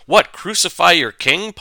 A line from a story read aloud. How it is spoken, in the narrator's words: Pilate asks